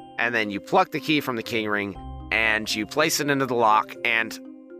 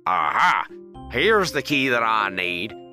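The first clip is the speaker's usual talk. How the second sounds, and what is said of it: Put-on Southern drawl. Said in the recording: “impersonating the guard's voice, so it's Southern drawl”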